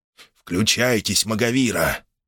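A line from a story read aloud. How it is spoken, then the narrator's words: Near whisper. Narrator (Russian): проговорил Обаянцев чуть ли не шепотом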